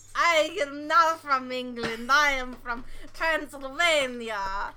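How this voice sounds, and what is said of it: Put-on vampire accent. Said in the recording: “I do the vampire accent”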